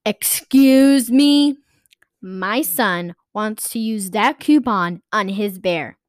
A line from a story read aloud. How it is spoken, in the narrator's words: the mom of the young boy screamed